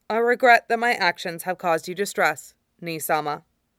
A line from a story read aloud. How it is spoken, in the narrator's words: he manages, and it's startling that his voice is still even, clear, no matter how formal and stilted the phrasing